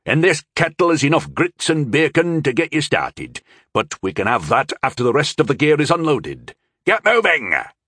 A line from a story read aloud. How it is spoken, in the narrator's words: he barked